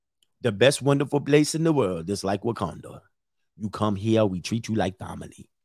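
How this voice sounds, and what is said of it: Put-on Nigerian accent. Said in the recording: “Nigerian ... I try to do my accent.”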